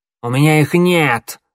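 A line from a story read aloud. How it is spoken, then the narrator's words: Snapping retort. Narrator (Russian): огрызнула Щербатая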